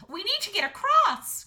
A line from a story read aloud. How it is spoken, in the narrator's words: cried Astrid